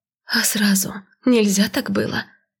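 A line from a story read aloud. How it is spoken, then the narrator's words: Hoarse shaken exhale. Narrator (Russian): Севшим от пережитого кошмара голосом выдохнула я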